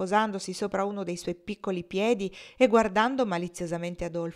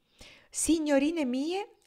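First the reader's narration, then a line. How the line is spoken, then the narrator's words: Man's exclamation. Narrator (Italian): esclamò Adolfo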